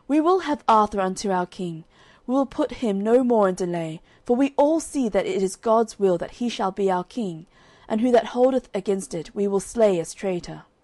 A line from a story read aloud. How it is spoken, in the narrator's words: all the commons cried at once